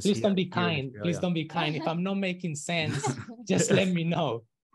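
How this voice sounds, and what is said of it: Thick foreign accent. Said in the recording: “my accent is a little bit thick”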